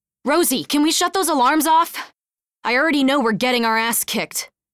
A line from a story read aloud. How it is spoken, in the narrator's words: Runyon shouted